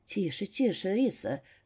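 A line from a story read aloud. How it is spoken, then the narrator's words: Barely intelligible whisper. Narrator (Russian): шептал Эрик, слова которого я разобрала только с пятого раза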